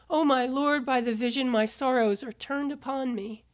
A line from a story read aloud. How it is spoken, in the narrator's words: Daniel fell down and cried out